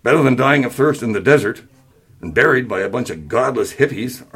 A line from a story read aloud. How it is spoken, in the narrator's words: Arnold scoffed